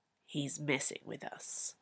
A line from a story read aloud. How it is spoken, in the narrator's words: Zeolin said in a low voice into Zee's ear